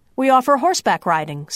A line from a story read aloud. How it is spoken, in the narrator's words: says Cardenas